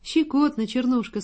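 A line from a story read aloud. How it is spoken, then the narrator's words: Laughing speech. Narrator (Russian): сказал, смеясь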